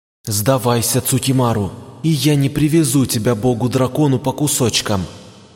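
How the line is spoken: Hissing. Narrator (Russian): зашипела Юримару

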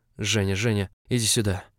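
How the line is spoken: Hoarse excited rasp. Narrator (Russian): прохрипел Август восторженно

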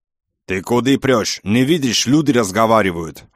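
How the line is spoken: Man's angry roar. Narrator (Russian): взревел кавказец

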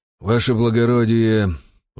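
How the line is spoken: Sighing. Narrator (Russian): вздохнул вольник

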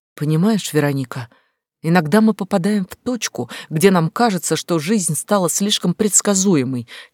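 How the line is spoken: Quiet. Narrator (Russian): тихо сказала

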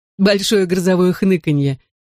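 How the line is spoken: Giggled. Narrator (Russian): хихикнул Дэви Рэй

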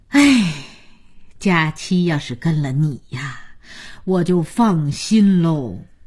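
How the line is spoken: Sighing grandmother. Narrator (Chinese): 姥姥叹口气说

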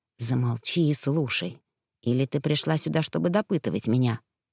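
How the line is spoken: Rough, curt. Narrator (Russian): грубо бросил

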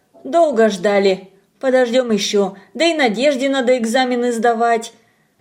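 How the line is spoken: Calm addition. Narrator (Russian): спокойно добавила

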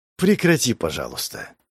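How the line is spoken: Tired interruption. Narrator (Russian): Перебила его гранд-магистр, устало

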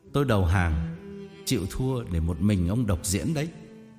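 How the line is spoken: Laughing loudly. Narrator (Vietnamese): Tôi cười lớn

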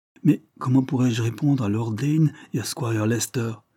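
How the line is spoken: Anxious, distressed exclamation. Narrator (French): s'écria le malheureux inspecteur, qui craignait de se trouver pris entre l'enclume et le marteau

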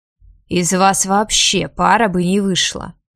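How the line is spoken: Furious growl. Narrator (Russian): прорычал Лютер, окончательно выходя из себя

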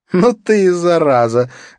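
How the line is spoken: Loud laughter. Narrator (Russian): громко расхохоталась Катрина

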